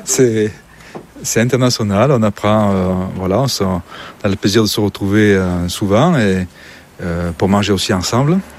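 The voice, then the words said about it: Southern French Midi accent. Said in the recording (French): “mon accent m'a trahi un petit peu. Je suis un peu plus du Midi ... Drôme provençale, Vaucluse”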